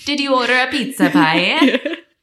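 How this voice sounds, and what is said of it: Exaggerated put-on Italian accent. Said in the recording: “Doing a very weird Italian accent.”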